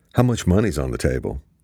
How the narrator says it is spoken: Luke quickly asked

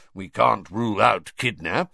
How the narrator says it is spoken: growled Moody

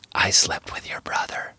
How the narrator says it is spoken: Sarah whisper back

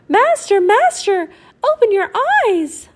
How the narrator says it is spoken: The harp called out

